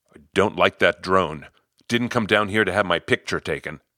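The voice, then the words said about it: Australian accent, stern voice. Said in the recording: “he says, in an Australian accent”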